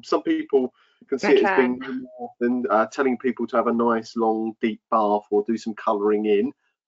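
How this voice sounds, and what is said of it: Sarcastic voice. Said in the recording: “I'm doing my best sarcastic voice there.”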